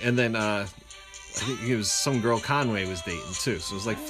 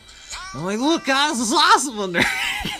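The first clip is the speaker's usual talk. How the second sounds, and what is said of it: Imitates another person's voice. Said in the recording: “doing the Tui voice”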